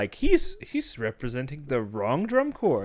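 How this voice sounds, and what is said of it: Put-on Asian accent. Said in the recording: “Why was that an Asian accent”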